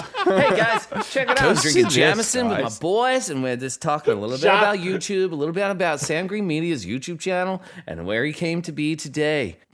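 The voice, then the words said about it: Thick put-on American accent. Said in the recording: “Give us the thickest American accent ... Thickest American? ... I feel like you're just doing me. It's perfect.”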